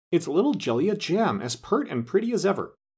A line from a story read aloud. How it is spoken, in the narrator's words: exclaimed